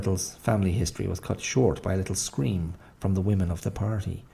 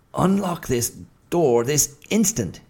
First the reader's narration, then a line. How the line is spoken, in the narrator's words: he shouted, with as much air of menacing authority as a hen might assume when screaming through the bars of a coop at a marauding hawk